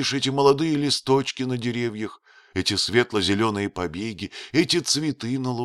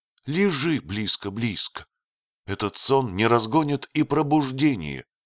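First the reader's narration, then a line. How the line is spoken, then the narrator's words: Deeply trembling voice. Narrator (Russian): сказала она глубоко дрогнувшим голосом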